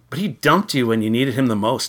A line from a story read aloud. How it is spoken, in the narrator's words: I exclaimed, defensive on Susan's behalf